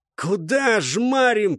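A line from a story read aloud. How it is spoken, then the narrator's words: Hoarse, close to ear. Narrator (Russian): прохрипели над ухом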